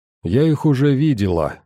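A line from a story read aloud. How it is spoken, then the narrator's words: Calm. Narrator (Russian): спокойно продолжила она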